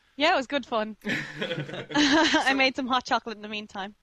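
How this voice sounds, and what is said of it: Irish accent. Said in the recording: “a friend calling in from Ireland ... Listen to the way you sound. That's so fun. ... my accent?”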